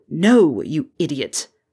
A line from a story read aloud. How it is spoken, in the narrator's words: Severus snarled